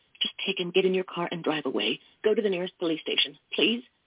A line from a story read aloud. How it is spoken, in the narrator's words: she whispered